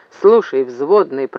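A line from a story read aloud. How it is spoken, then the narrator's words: Grumble. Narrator (Russian): проворчал Зев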